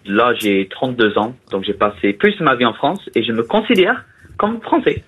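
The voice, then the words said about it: Strong foreign accent in French. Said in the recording (French): “j'ai cru que vous étiez allemand ... Vous avez quand même un putain d'accent.”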